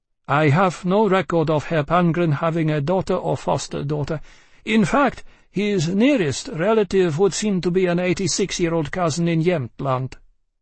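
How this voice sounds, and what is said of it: Finnish accent. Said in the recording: “he spoke with a Finnish accent”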